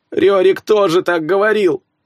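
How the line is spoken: Whining. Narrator (Russian): прохныкал Ингвар

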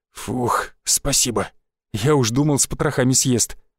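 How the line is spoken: Relieved exhale. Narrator (Russian): выдохнул Шишаков

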